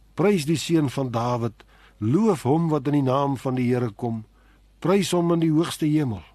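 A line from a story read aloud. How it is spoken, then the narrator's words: Crowd crying out. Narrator (Afrikaans): En hulle roep uit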